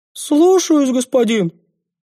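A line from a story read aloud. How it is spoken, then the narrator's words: Cheered-up reply. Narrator (Russian): повеселевшим голосом ответил тезка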